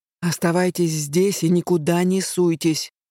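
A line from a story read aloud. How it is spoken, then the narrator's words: Through gritted teeth. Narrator (Russian): процедил мне через плечо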